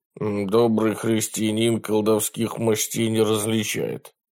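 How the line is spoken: Indistinct grumbling fat monk. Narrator (Russian): невнятно пробурчал толстый монах

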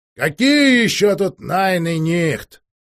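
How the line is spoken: Loud indignant servant. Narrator (Russian): громко возмутился слуга аристократки

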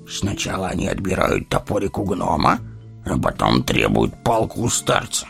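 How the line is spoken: Wry snort. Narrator (Russian): хмыкнул Гимли

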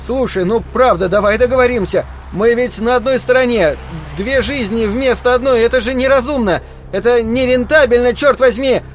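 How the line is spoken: Nearly shouting. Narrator (Russian): Он почти кричал

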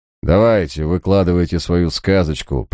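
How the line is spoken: Dismissive contemptuous tone. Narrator (Russian): пренебрежительным тоном проговорил сэр Томас

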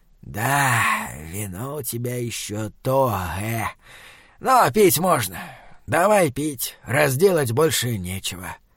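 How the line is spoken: Quiet thoughtful drawl. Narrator (Russian): демон тихо и задумчиво протянул

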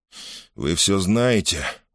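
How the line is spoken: Hoarse rasp. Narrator (Russian): прохрипел он

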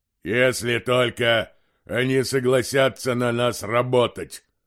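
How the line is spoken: Deep bass voice. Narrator (Russian): пробасил Бальдандерс

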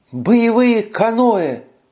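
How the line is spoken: Exclaiming woman. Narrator (Russian): воскликнула Карара

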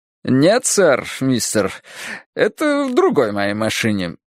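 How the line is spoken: Joking, condescending, overly polite. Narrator (Russian): ответил он шутливым, снисходительным и преувеличенно любезным тоном

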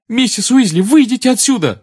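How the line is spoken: Shouting. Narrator (Russian): закричал Гарри

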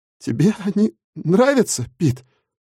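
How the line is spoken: Stammering question from behind. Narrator (Russian): Запинаясь, спросил кто-то у меня за спиной

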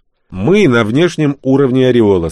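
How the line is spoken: Plain. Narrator (Russian): сказал Вилли

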